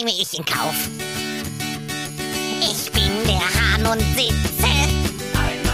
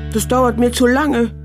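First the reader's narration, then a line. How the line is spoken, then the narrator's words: Plain. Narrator (German): sagte Hävelmann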